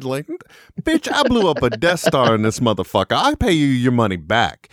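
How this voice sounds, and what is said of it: Put-on accent. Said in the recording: “using that accent”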